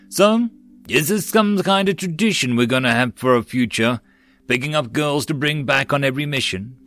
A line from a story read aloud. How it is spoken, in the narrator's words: Tyria grumbled